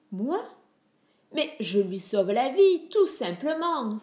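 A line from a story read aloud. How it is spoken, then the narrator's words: Theatrical exclamation. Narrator (French): s'exclama Hermès, comme s'il était en représentation sur une scène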